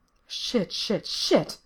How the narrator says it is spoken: Lindsay mutters

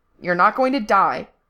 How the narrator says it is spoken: Frank snapped

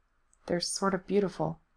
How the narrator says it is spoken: he said softly

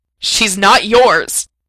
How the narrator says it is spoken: he spat

